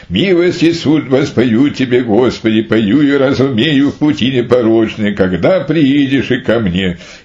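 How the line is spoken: Joyful singing. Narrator (Russian): мученик Харавампий радостно воспевал

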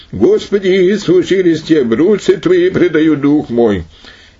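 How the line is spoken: Loud exclamation. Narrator (Russian): Затем он громким голосом воскликнул

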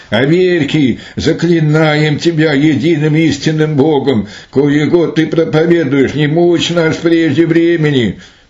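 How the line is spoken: Incessant terrible screaming. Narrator (Russian): беспрестанно кричали ужасным голосом

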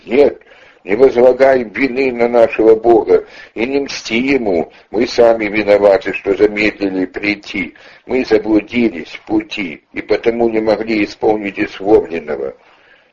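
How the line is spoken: Shouting. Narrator (Russian): кричали святому

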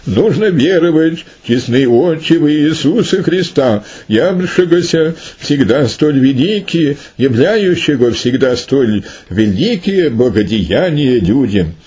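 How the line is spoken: Loud exclamation. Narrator (Russian): Отрек громким голосом воскликнул

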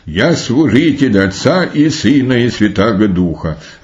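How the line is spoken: Boy's exclamation. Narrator (Russian): Отрок воскликнул

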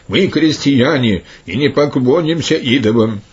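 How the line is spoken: Crowd shouting. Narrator (Russian): сколько ни было народу, закричали все

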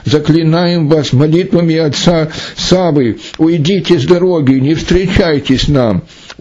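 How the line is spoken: Loud bestial shout. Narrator (Russian): закричали они зверем громким голосом

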